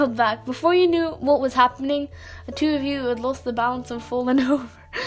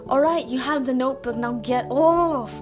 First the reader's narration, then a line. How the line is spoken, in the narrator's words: You whined, struggling underneath him